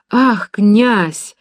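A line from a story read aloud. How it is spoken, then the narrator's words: Woman's startled cry. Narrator (Russian): вскрикнула женщина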